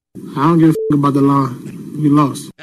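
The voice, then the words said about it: Impression of Russell Westbrook. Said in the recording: “he did a good impression of Westbrook.”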